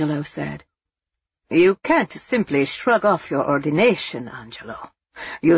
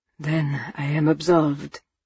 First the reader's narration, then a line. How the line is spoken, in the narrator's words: he asked wearily